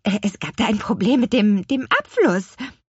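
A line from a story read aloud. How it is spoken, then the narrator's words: Stammering. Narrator (German): stotterte sie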